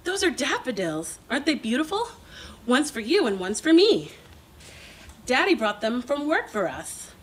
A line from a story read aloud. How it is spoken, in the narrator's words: my mom exclaims